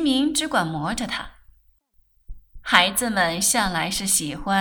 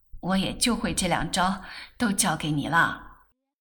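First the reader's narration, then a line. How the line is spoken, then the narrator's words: Laughing. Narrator (Chinese): 狱警笑道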